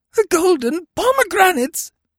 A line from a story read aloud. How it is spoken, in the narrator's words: he shrieked